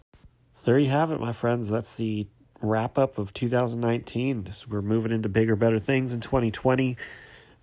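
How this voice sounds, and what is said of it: Congested, stuffy-nosed voice. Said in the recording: “I sound terrible. ... My nose is super stuffed up, so I just sound goofy.”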